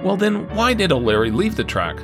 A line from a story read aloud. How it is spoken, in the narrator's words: the coroner replied